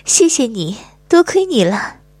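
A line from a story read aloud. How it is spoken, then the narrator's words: Smiling, warm. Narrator (Chinese): 张姐笑着说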